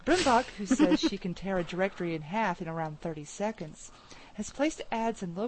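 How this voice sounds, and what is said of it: Usual voice. Nothing is said of it.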